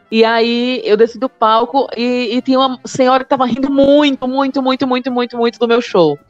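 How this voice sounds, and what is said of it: Brazilian northeastern accent. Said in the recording (Portuguese): “esse sotaque do nordestino ... Eu falei, mulher, eu não tô imitando o sotaque, não. ... Eu falo assim mesmo.”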